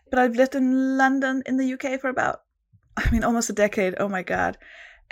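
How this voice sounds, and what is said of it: Danish accent. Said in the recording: “I am from Denmark. That's the accent, the weird accent you can hear.”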